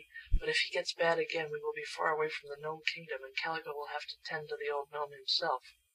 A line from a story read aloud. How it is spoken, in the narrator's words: whispered Betsy to Shaggy